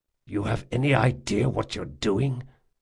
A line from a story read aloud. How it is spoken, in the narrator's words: he whispered